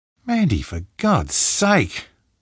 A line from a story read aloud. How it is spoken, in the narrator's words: Gretchen snapped